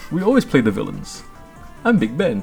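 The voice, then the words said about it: Put-on English accent. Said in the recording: “I have an English accent.”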